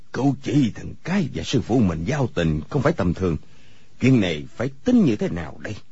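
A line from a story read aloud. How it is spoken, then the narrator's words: Pensive muttering to himself. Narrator (Vietnamese): Người câu cá cúi đầu trầm ngâm, lẩm bẩm một mình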